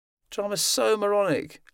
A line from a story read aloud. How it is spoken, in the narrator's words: Lauren moaned